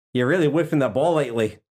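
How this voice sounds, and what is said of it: Put-on Australian accent. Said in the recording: “that's the best Australian accent you're going to get out of me”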